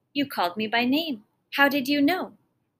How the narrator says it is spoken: Then, suddenly remembering, he exclaimed

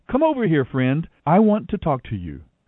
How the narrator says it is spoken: Boaz called out to him

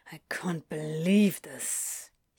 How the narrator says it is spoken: muttered morosely

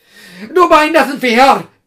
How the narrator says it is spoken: cried a rival

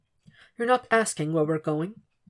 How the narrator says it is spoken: whispers

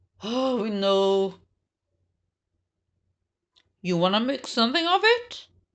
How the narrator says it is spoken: Daniel asked in his best tough guy voice

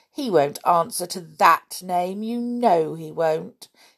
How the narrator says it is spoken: said scornfully

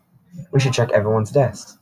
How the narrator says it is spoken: said a classmate

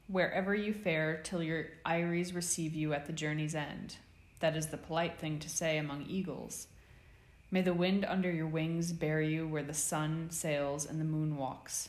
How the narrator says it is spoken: they cried

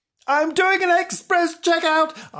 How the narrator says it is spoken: cried

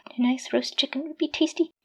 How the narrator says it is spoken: he mumbled, salivating

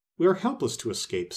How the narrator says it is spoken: sighed the wizard

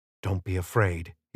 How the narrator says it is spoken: he whispered

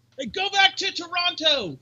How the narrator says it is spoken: somebody yells at Jericho

